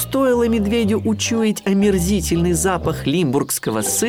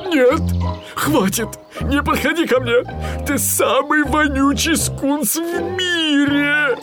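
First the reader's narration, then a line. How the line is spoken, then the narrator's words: Pleading. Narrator (Russian): он взмолился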